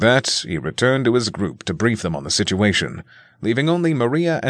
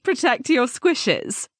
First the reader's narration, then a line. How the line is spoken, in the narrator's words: Sioa asked Maria, her question accompanied by a small chuckle